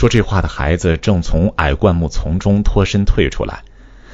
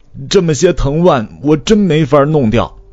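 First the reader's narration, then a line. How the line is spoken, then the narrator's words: Calling out. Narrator (Chinese): 那个声音又叫开了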